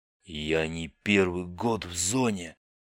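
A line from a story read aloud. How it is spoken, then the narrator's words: Hoarse, straining. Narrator (Russian): прохрипел Бибик, с трудом поднимаясь с пола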